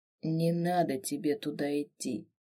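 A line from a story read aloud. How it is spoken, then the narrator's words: Gloomy. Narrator (Russian): произнес мрачно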